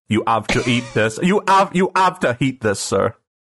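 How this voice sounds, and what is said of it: Put-on Quebecois French accent. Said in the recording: “I want a Quebecois butler.”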